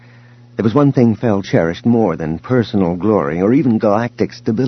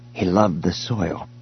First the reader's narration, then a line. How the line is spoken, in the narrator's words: he said quietly